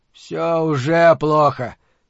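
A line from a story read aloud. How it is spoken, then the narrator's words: Grumbling. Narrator (Russian): проворчал Торсит Магнисон, начальник управления общественной безопасности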